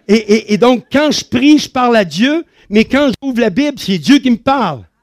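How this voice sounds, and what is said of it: Non-Swiss French accent, fairly fast speech. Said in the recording (French): “des fois, avec l'accent ... je parle un peu plus vite que les Suisses”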